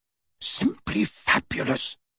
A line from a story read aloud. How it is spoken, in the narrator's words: whispered